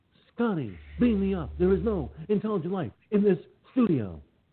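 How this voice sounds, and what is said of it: Captain Kirk impression. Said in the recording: “does a Kirk impression talk like this”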